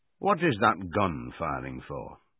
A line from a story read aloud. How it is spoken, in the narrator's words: said Boxer